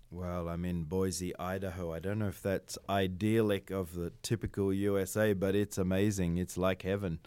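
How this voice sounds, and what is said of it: Australian accent. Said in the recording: “obviously that's not a Vietnamese accent. So you, you sound like you might even be from Australia.”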